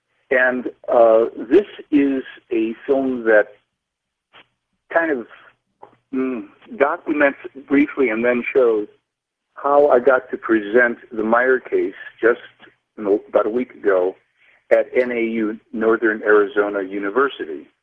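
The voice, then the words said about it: Muffled, hard-to-hear voice. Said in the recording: “I can barely hear you. You sound muffled.”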